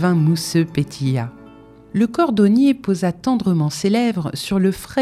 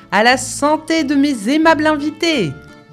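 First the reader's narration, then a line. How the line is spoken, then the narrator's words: Host exclaiming. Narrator (French): s'écria l'hôte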